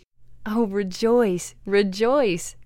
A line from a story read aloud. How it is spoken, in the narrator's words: cried the three